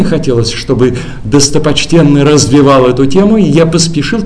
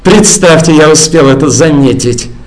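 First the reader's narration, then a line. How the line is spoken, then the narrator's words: Nasty venomous tone. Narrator (Russian): отозвался достопочтенный противным ядовитым тоном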